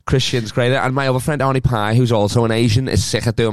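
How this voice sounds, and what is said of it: Scouse accent. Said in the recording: “I'm used to the Scouse accent anyway. Everybody sounds like me back home”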